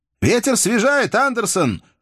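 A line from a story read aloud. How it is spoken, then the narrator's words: Shouted. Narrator (Russian): закричал Джаспер старшему из матросов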